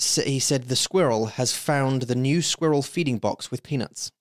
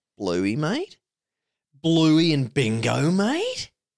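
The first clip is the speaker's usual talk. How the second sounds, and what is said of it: Put-on Australian accent. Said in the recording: “I love Australians. ... I like the accent. It's really fun. Yeah. It's really fun to do.”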